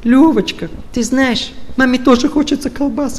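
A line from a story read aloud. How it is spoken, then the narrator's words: Whiny tearful voice. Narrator (Russian): таким, знаете, плаксивым голосом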